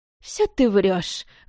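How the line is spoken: Scoffing snort. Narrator (Russian): хмыкнула Прахова

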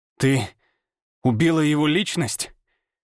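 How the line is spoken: Forced through clenched teeth. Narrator (Russian): Выдавил я сквозь сжатые зубы

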